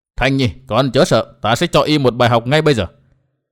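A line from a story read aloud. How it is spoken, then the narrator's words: Angry quiet question. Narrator (Vietnamese): Thượng Quan Tung thấy cụ già quắc mắt nhìn con gái của mình một cách thiếu thiện cảm, lão ta rất tức giận nên hỏi nho nhỏ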